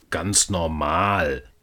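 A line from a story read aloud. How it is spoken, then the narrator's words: Growling. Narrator (German): knurrte der Weihnachtsmann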